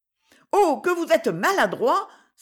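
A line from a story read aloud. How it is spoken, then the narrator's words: Bold, frank exclamation. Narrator (French): s'écria-t-elle avec sa franchise intrépide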